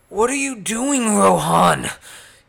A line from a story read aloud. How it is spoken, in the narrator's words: screamed at him